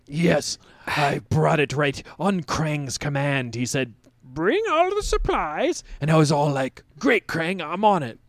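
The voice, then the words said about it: Impression of Krang. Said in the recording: “That was really good. Don't let him catch you doing that impression, though.”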